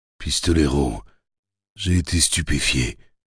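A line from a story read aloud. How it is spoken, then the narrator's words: Hoarse trembling voice. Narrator (French): dit Roland d'une voix rauque et tremblante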